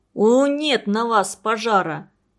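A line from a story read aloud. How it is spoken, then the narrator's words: Grumbling. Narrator (Russian): проворчал дядя Харитон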